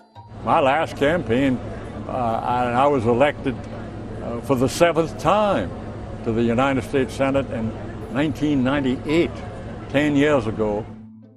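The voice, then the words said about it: Charleston accent, widely varying pitch. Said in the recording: “Hollings' pitch is all over the place ... Senator Hollings' Charleston accent”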